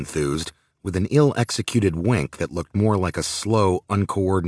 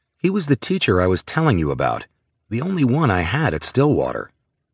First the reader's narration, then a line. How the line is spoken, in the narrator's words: Alex explained, raising his voice